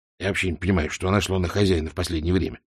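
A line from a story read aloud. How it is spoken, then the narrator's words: Grumbling mutter. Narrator (Russian): буркнул Альберт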